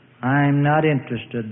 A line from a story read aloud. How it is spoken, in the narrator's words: the father says gloomily